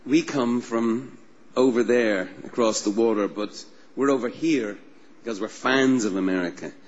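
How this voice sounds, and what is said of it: Subtle non-American accent. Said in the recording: “and I have accents. Subtle.”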